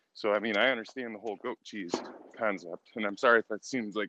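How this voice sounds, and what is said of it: Out of breath while speaking. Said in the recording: “I'm out of breath.”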